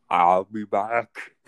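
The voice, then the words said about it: Arnold Schwarzenegger impression. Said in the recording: “It's Arnold Schwarzenegger.”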